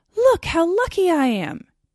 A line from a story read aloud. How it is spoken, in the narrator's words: he cried